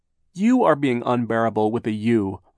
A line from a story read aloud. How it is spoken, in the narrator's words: Violet cried